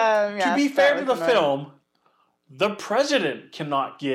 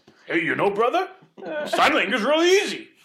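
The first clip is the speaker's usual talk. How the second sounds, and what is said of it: Imitates another person's voice. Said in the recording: “That was my Rock impression. ... Pretty good Rock.”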